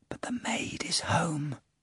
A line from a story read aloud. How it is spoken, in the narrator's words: added in a whisper